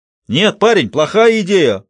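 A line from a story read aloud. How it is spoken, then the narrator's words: Soldier shouting. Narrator (Russian): прокричал один из солдат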